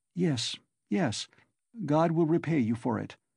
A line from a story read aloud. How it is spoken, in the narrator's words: faltered Sonya